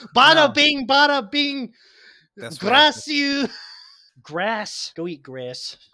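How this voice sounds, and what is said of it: Mock Italian accent. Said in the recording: “speak Italian”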